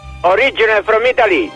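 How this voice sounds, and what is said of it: Exaggerated fake Italian accent. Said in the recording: “the world's fakest Italian accent”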